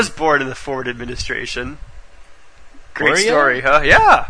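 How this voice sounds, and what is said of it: Usual voice. Nothing is said of it.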